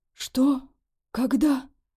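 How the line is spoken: Hoarse rasp. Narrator (Russian): прохрипел

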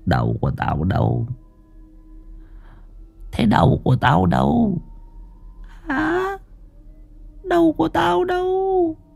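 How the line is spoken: Indistinct muttering. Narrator (Vietnamese): bóng Hoàng Anh lẩm bẩm lí nhí trong miệng

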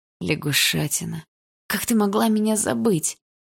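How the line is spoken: Young man's sigh. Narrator (Russian): вздохнул парень

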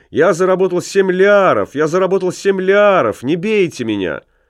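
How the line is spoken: Frightened shout. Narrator (Russian): Ламме спрятался за Клааса и крикнул

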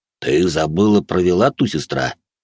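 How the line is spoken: Deep bass reply. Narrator (Russian): в ответ пробасил Мад

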